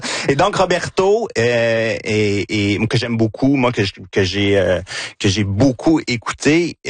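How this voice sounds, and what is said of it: Victoriaville regional French accent. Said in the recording (French): “Gina sourit à cause de mon accent ... c'est mon accent de Victoriaville”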